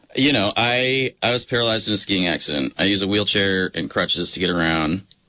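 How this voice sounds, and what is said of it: Speaking too loudly. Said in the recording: “I'm talking too loudly.”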